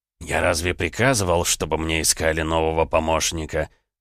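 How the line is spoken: Growling. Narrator (Russian): прорычал хозяин кабинета

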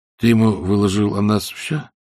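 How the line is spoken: Calm and quiet. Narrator (Russian): Так же спокойно и негромко продолжил Айсман

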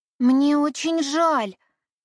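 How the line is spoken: Exclaimed. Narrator (Russian): воскликнула Эллен

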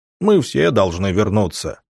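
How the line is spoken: Deep bass voice. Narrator (Russian): пробасил здоровяк

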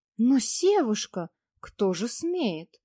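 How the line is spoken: Matching exclamation. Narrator (Russian): В тон ему воскликнула она

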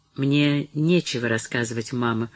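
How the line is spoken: Glum objection. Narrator (Russian): возразила Мэри уныло

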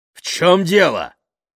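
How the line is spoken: Loud bark, father. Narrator (Russian): гаркнул отец

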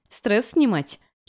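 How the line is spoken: Giggling. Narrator (Russian): хихикнула я

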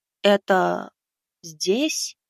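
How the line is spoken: Uncertain question. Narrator (Russian): неуверенно спросил Леша

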